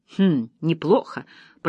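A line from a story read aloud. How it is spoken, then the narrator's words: Muttering. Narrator (Russian): пробормотала она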